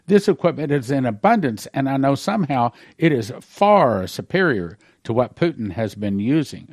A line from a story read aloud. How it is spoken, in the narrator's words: I exclaimed